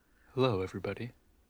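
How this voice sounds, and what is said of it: Mock NPR radio announcer voice. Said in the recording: “Weird voices from these two coming in ... my NPR voice ... that was a good NPR voice”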